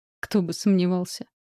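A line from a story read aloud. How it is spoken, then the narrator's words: Smirking grunt. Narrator (Russian): хмыкнул он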